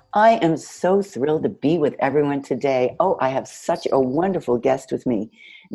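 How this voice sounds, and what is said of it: Congested, husky low voice. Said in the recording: “Your voice sounds a little bit different today ... my very bad Lauren Bacall imitation ... got a little bit of sniffles”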